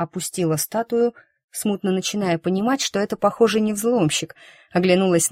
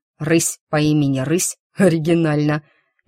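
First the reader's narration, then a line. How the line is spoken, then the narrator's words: Good-natured deep bass laugh. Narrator (Russian): захохотал добродушным густым басом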